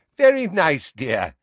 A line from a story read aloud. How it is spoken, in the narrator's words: said Neville's grandmother in a falsely cheery voice